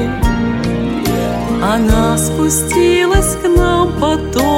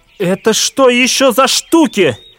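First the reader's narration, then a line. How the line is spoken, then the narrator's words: Menacing shout. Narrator (Russian): грозно крикнул папа Фитих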